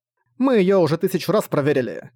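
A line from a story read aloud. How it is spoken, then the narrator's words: Irritated. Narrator (Russian): раздраженно сказала Кирма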